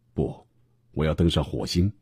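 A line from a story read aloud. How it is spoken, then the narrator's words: Smiling. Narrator (Chinese): 马斯克笑眯眯地说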